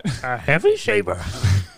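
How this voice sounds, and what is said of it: Bad Yoda character voice. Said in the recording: “It's the worst Yoda impression.”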